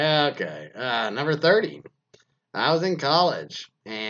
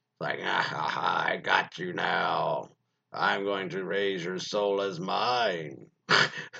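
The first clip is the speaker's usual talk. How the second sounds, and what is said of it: Creepy voice. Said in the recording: “This creepy voice scared me.”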